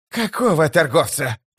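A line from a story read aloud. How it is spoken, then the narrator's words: Growling. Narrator (Russian): прорычал прыщ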